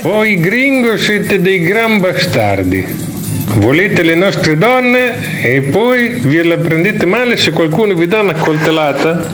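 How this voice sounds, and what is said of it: Put-on Mexican accent, movie character. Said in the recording (Italian): “Uguale! ... proprio anche l'accento! Lo senti messicano? ... mi sembrava più un messicano di Vigerballa. ... della Romagna!”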